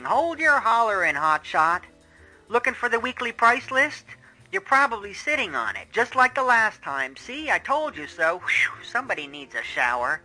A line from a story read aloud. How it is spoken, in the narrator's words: the weary voice of a woman shouting